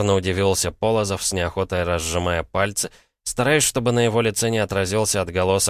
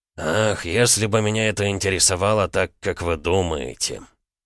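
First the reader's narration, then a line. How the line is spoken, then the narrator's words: Lazy, stifling a yawn. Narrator (Russian): Подавив зевок, лениво произнес Полозов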